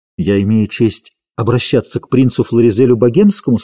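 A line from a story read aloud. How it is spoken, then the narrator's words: Plain. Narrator (Russian): спросил он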